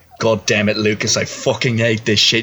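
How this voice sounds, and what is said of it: Australian/British accent cat voice. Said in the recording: “why does your cat have an Australian/British accent?”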